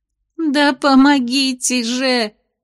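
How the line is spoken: Sobbing indignation. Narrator (Russian): всхлипывая, возмутилась Венди

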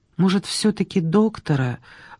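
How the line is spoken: Timid question. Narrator (Russian): робко поинтересовалась она

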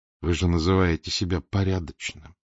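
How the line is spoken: Quiet. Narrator (Russian): тихо сказал Фондорин

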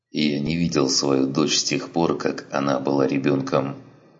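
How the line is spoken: Plain. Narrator (Russian): сказал Гриссом

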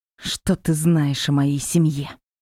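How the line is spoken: Angry, through gritted teeth. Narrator (Russian): зло процедила

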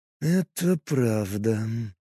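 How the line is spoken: Drawn-out drawl. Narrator (Russian): протянул Лист

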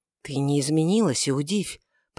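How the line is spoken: Passionate whisper. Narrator (Russian): прошептал Каиафа, в порыве вспыхнувшей страсти

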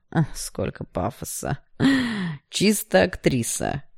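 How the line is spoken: Hoarse laugh. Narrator (Russian): хрипло рассмеялся Игнат

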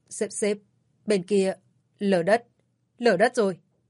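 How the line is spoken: Stammering. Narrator (Vietnamese): Văn Đường lắp bắp

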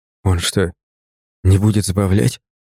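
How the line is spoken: Whisper. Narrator (Russian): прошептал Артемий

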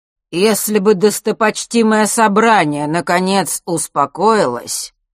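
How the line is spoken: Loud and clear over noise. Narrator (Russian): перекрывая гул, неожиданно громко и четко произнес Астариус

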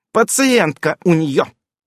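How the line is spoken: Barking. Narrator (Russian): рявкнула остроносая

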